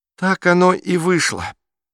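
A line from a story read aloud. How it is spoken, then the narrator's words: Sad statement. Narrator (Russian): печально констатировал Бруно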